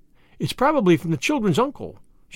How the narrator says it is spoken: said excitedly

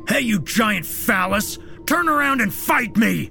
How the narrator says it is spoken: David yelled out with as much bravado as he could muster

